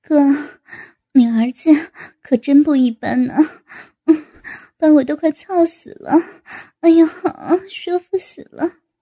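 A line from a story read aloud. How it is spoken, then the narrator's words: Panting. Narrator (Chinese): 高志新 气喘着道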